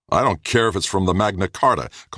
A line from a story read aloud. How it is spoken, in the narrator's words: Kossoff snapped